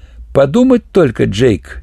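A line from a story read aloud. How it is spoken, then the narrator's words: Old man giggling. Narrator (Russian): хихикнул старина Джи Энгус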